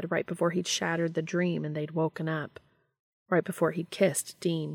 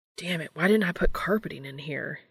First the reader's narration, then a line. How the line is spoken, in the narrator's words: he muttered